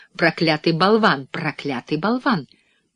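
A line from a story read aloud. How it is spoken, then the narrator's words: Breathless muttering. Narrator (Russian): она продолжала бормотать, задыхаясь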